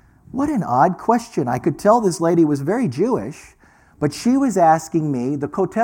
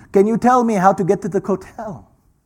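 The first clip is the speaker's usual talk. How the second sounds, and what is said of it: Deliberately bad put-on Israeli accent. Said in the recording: “This is my really bad Hebrew accent, okay? Israeli accent.”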